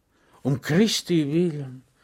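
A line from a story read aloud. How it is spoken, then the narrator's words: Sigh. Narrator (German): seufzte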